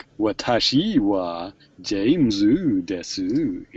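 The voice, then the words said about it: Japanese in silly American accent. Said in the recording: “they just basically speak Japanese, but with like a silly American accent”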